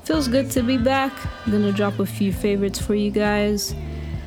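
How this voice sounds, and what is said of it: Speaker with a distinctive accent. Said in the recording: “the one with the funny accent”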